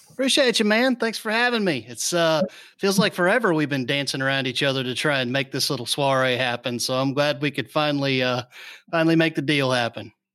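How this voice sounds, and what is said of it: Smooth radio announcer voice. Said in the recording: “you got that radio voice, that podcast voice,”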